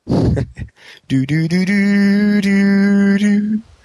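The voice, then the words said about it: Imitates a video game sound effect. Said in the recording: “best impression ... of the Mario pipe noise”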